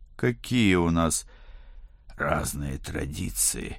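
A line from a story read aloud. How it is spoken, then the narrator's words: Rasped. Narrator (Russian): прохрипел я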